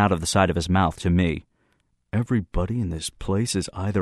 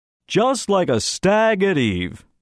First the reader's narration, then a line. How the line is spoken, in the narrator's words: Brinker roared back